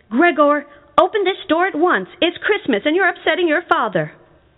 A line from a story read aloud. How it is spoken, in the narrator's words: his mom knocked on the door and yelled